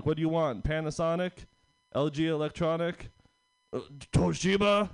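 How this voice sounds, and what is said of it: Unpolished put-on Japanese accent. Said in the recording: “I'll work on my Japanese accent for that one”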